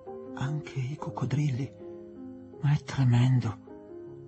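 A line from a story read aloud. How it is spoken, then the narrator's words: Mother murmuring. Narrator (Italian): mormorò la madre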